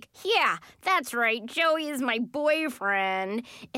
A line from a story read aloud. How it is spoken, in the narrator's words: in the most sarcastic voice possible